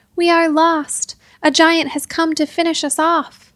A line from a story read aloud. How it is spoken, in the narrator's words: shouted